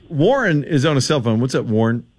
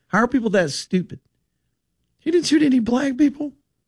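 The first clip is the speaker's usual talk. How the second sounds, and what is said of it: Voice rises in pitch, incredulous. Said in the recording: “Why did my voice go up? ... I was incredulous.”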